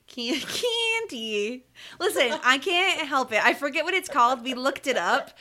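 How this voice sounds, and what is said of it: Upstate New York, Midwestern-sounding accent. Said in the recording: “Why I have such a weird accent ... Northeastern something or other ... upstate New Yorkers tend to sound like Midwesterners”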